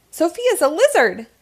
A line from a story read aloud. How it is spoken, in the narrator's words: James shouts